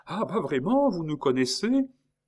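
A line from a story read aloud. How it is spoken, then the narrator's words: Effusive exclamation. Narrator (French): plus expansif, s'écria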